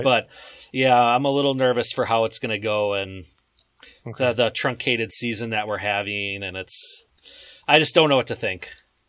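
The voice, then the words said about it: Midwestern American accent. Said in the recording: “You do have that nice Midwestern accent to you, though”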